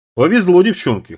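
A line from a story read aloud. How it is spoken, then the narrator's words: Snort. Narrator (Russian): хмыкнула Марла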